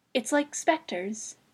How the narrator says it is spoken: she said softly

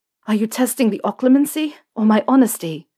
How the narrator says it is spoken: Harry asked, panting

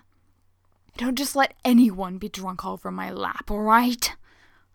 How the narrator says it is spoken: Hayato growls

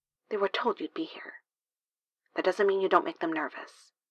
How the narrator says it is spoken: Kimball says quietly

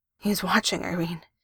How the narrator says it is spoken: said shakily into her skin

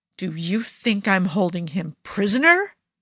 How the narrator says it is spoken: Jafar growls

